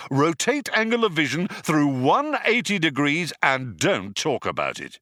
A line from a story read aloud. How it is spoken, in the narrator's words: shouted Zaphod